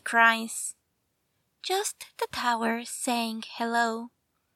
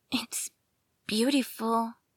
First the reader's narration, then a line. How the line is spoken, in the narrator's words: she gasps